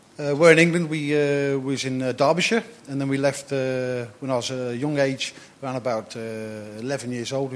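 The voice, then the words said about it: Northern English accent. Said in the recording (Dutch): “his accent, he's from the north of England.”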